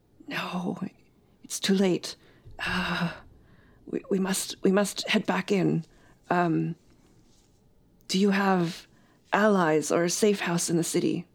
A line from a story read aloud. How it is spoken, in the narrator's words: He hisses